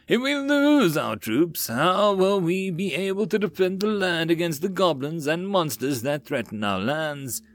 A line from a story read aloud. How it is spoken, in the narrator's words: said as he mocked a distressed tone